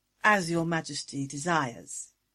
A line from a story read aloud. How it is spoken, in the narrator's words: she purred